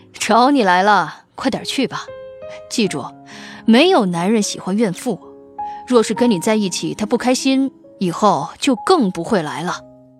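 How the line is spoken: Amused. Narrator (Chinese): 孔学富 不由好笑

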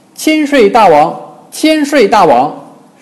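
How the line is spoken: Crowd shouting. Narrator (Chinese): 众猴高喊

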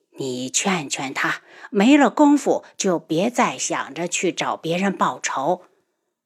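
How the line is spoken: Sighing old woman. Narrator (Chinese): 老夫人叹了口气

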